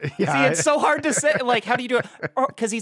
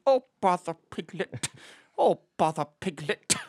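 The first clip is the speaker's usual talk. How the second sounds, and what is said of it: Tired, slow Winnie the Pooh voice. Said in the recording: “Try and do a Winnie the Pooh accent. ... he's, like, kind of so tired and just”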